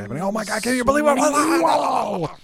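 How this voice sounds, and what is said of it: Exaggerated sportscaster voice. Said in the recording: “my sportscaster voice”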